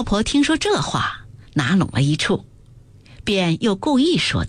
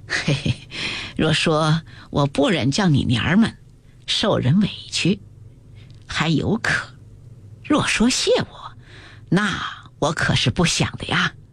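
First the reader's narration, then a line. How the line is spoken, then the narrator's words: Laughing. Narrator (Chinese): 马道婆笑道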